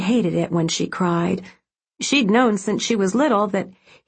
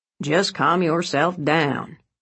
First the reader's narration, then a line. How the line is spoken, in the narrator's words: he grumbled